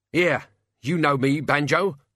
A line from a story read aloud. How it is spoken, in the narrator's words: the locksmith croaked, struggling in midair